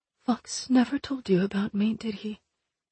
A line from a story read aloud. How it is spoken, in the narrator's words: asked softly